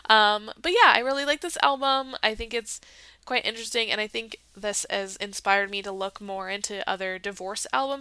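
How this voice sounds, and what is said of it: Congested, stuffy voice. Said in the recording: “you may have heard in my voice I'm a little congested”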